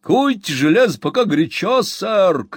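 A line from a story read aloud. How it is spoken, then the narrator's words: Shout. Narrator (Russian): крикнул Сэм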